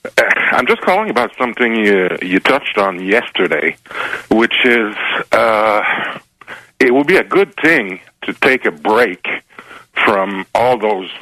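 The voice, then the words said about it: French-accented English. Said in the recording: “My French accent will come out”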